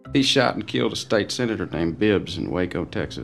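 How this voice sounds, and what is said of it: Texan accent. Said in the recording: “The famous Texan accent that we all know from movies”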